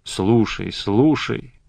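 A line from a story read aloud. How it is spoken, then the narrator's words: Muttering. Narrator (Russian): бормочет он мне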